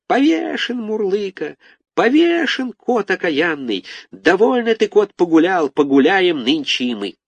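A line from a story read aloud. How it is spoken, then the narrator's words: Squeaky chorus. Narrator (Russian): запищали мы хором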